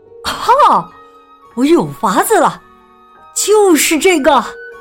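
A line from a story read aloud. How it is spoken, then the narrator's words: Excited shout. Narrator (Chinese): 东华呀，却兴奋的大叫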